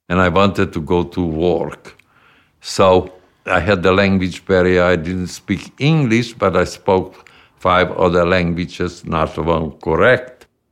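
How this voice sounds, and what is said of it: Foreign accent. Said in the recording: “Bill had a foreign accent”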